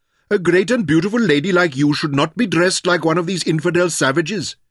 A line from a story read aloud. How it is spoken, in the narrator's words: reprimanded sternly in French